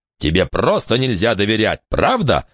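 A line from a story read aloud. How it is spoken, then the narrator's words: Barked. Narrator (Russian): рявкнул Элистер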